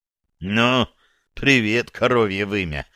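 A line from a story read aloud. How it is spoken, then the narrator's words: Hoarse speech. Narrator (Russian): хрипло сказал я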